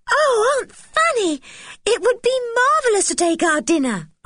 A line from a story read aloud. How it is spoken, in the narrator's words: cried Anne